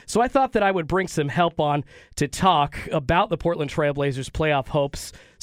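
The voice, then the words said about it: Sounds a little sick. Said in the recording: “I sound a little sick”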